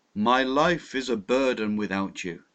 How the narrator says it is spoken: exclaimed in a low voice

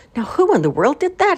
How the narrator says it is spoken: He exclaimed

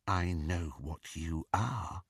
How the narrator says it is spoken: he lowered his voice and said

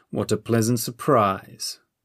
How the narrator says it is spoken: the Lord said coldly

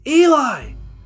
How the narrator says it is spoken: shouted

